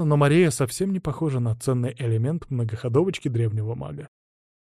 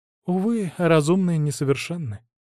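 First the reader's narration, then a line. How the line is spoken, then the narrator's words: Sigh. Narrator (Russian): вздохнула она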